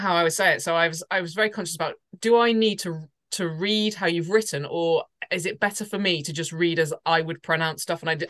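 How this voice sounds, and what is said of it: Southern English accent. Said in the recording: “I've got a southern accent, so I pronounce things slightly different”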